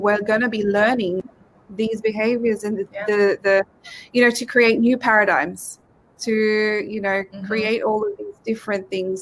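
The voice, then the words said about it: Speaks English with an accent. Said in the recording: “because, you know, my accent.”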